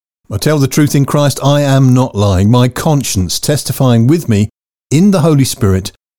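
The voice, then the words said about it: English accent. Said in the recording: “coming to you in an English accent.”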